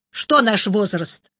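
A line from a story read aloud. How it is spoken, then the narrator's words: Sharp question. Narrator (Russian): резко спросил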